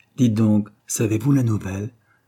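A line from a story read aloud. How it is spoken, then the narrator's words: Plain. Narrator (French): lui dit-elle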